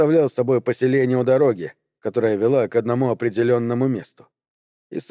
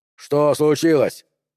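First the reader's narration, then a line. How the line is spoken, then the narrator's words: Shout, big man. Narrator (Russian): крикнул здоровяк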